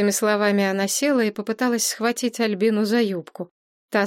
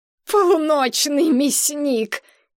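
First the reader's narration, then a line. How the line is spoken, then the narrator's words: Mocking laughter. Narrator (Russian): Нина захохотала издевательски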